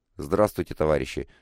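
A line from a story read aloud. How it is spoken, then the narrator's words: Quiet. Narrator (Russian): также тихо сказал Коба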